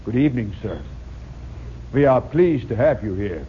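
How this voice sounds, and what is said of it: Put-on Russian accent. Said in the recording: “with a Russian accent. This, by the way, is South Chicago Russian.”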